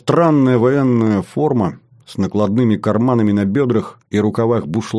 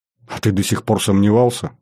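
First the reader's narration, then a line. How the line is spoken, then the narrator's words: Skeptical snort. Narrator (Russian): хмыкнул я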